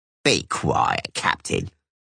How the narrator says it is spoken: croaked the bandit

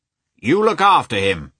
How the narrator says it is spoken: shouted the commander to Yashvin

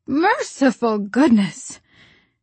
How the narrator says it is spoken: There was a gasp and a cry, and somebody said in muffled accents

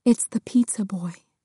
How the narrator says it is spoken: her mom whispered

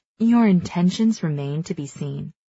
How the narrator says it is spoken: Sonia purrs

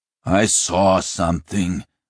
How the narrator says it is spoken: Sludic growled

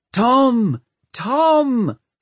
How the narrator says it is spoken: somebody kept shouting

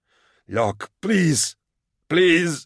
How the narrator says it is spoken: in a hoarse voice

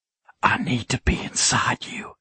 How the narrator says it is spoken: I whispered in between kisses

